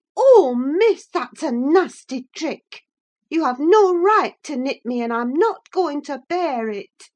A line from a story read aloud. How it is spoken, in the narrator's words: screamed out